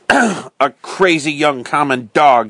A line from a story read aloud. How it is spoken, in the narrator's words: spat